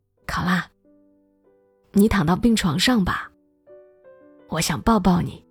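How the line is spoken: Soft-spoken. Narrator (Chinese): C 先生……轻声说

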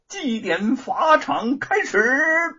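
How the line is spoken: Loud official shout. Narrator (Chinese): 监斩官高声大喊

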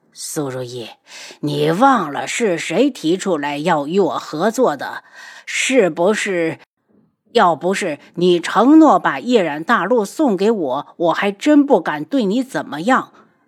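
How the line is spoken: Cold sneer through pain. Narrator (Chinese): 大长老忍着痛冷笑

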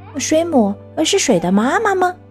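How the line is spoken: Shouting loudly. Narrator (Chinese): 霹雳鼠也大叫着

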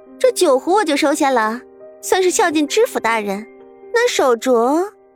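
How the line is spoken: Slight smile, knowing. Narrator (Chinese): 徐夫人早已料到会是这样，她微微一笑

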